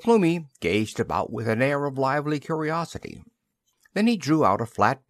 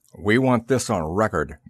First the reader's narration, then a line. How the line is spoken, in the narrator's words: growled